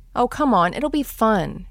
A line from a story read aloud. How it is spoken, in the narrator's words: she pleaded with me